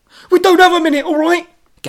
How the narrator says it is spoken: Gav snapped

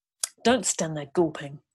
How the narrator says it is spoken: grandfather hisses

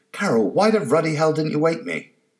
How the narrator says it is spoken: He yelled

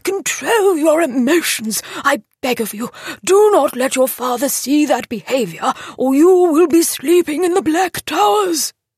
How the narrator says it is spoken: thundered Harris

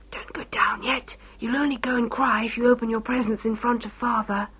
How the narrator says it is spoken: whispered to me

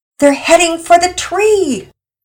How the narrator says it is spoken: Penelope frantically yelled out

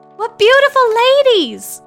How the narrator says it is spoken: cried she in English

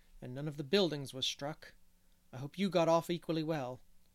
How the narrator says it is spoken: said Marilla grimly

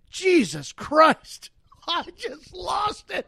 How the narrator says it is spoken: she exclaims

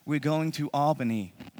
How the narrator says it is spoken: Molly said

